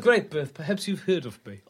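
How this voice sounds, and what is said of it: Funny character voice. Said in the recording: “The merchant bodyguard with the funny voice.”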